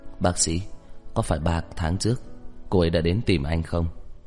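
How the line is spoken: Persistent question. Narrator (Vietnamese): Lục Bán Thành không để ý đến sự từ chối của bác sĩ mà lại hỏi tiếp

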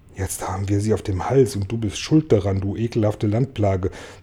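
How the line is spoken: Indignant hiss. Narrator (German): zischte Regenwurm Tausendfüßler empört zu

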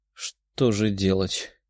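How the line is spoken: Embarrassed mumble. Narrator (Russian): С красными ушами пробормотала она

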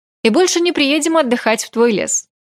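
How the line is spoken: Cheerful. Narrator (Russian): Бодро закончила я

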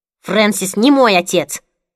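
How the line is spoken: Barking sharply. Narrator (Russian): рявкнула Лили

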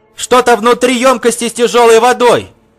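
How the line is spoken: Shouted. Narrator (Russian): крикнул Пол

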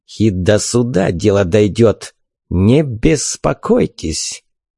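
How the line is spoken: Threatening hiss. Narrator (Russian): Угрожающе прошипел толстяк

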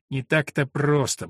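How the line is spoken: Muttering. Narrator (Russian): бормотал он

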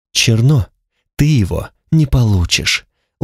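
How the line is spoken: Weary curt remark. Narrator (Russian): устало бросила Танталь

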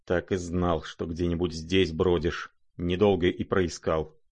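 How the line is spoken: Muttered through teeth. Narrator (Russian): пробормотал сквозь зубы Рогожин

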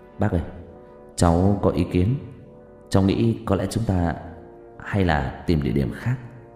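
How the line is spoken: Soft, hesitant speech. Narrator (Vietnamese): khẽ nói

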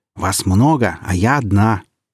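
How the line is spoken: Growling. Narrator (Russian): Уксус рычала

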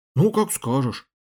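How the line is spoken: Grumble. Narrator (Russian): буркнул

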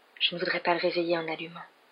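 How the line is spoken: Murmuring. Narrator (French): murmura-t-elle

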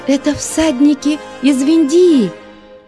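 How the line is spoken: Excited girl shouting. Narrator (Russian): взволнованно закричала девушка

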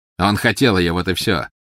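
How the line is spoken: Mocking. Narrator (Russian): насмешливо сказал Волан-де-Морт

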